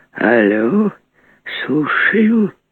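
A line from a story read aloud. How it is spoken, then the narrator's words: Very old mumbling voice. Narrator (Russian): старущий шамкающий голос ответил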